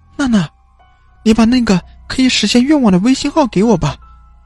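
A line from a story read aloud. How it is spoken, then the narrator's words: Pleading. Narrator (Chinese): 许静哀求说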